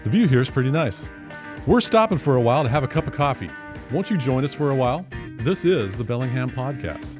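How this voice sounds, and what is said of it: Radio announcer voice. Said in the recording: “I was test driving my announcer voice in that hook”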